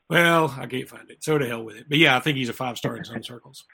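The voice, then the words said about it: Strained, fading voice. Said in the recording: “My voice is leaving me”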